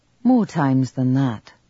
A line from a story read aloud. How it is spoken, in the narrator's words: said de Laura